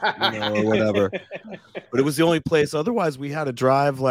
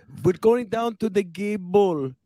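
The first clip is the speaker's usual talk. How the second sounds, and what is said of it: Imitated German accent. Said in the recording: “she had a German accent”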